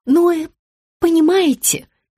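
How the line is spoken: Stammering. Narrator (Russian): начала заикаться генеральный директор рекламной фирмы

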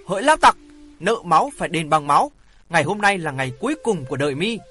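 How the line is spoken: Aggrieved shout. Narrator (Vietnamese): Hoàng Thượng Chí ấm ức quát

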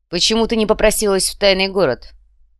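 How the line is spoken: Unexpectedly sharp question. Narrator (Russian): Вопрос прозвучал неожиданно резко

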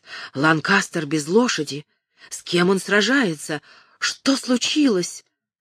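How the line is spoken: Amazed crowd murmur. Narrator (Russian): Среди зрителей пронесся гул изумления и шепот

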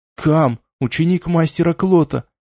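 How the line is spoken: Trembling voice. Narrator (Russian): дрожащим голосом произнес

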